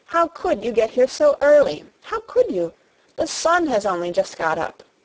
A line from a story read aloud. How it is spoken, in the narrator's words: cried out